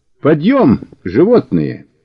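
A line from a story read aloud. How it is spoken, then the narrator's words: Cheerful, commanding shouts. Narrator (Russian): весело и властно покрикивал Мишаня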